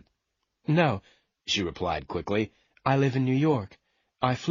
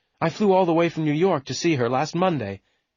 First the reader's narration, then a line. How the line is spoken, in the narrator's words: she said angrily